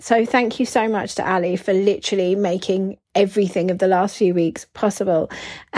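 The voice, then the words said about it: Croaky, hoarse voice. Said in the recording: “in my horrible croaky voice”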